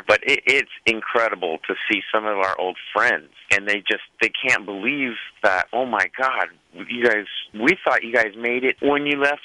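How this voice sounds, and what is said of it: Bakersfield southern American accent. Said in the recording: “I even have a Bakersfield accent ... you have a southern accent”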